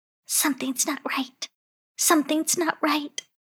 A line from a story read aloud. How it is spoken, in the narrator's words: whispered